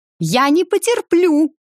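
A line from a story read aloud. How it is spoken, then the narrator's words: Shrill insistent voice. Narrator (Russian): не унимался все тот же визгливый голос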